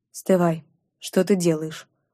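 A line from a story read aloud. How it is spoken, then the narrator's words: Muffled, tired question. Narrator (Russian): Глухо, устало спросил Чингар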